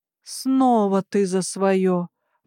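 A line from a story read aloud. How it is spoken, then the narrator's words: Groan. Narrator (Russian): простонала я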